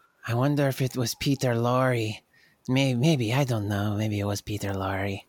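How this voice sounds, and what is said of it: Usual voice. Nothing is said of it.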